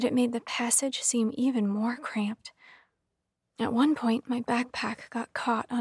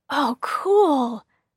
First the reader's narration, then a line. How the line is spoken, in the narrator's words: David exclaimed